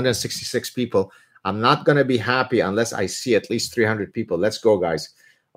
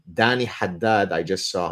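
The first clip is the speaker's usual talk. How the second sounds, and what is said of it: Put-on Arabic accent. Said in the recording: “the way I said that with the Arabic accent”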